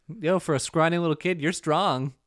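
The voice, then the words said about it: 80s Midwestern mom flirting, like Linda Belcher. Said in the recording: “That like 80s Midwestern mom flirting. ... You turn into Linda Belcher a little bit.”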